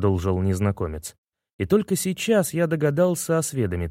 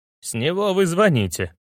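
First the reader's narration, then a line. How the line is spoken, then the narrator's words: Man's snort. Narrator (Russian): хмыкнул мужчина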